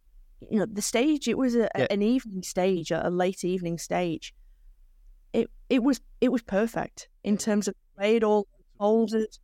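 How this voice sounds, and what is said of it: A pleasant foreign accent. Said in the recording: “your lovely accent”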